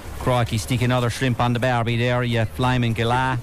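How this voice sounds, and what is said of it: Funny hybrid Irish-French-Australian accent. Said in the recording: “accent gone a bit funny? ... Me accent is kind of turned into a kind of a hybrid there, between Cork, France, and kind of Australia there”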